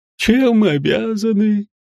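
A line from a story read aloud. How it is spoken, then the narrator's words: Lazy drawl. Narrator (Russian): Лениво протянул Гринривер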